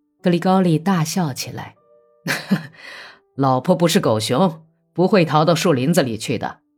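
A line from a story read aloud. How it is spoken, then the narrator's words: Old man, kindly laughing. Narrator (Chinese): 老地主慈爱的笑着说道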